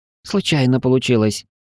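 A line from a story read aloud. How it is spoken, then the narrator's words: Bewildered reply. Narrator (Russian): растерянно ответил Пар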